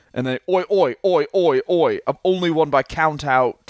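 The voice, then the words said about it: Put-on British hooligan accent. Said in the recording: “Is that a good accent? ... It's very good.”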